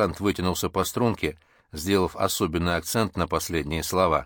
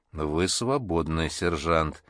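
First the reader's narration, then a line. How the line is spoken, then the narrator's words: Quiet hiss. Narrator (Russian): тихо прошипела Полина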